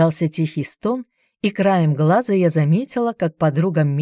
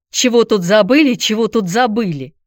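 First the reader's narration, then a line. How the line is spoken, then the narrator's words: Deliberately loud grumbling. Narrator (Russian): Нарочно громко заворчала я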